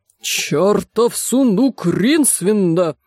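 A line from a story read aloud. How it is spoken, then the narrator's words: Eccentric man growling. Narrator (Russian): прорычал чудак Улли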